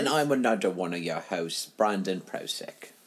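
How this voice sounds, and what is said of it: Michael Caine impression. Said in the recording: “doing my Michael Caine voice”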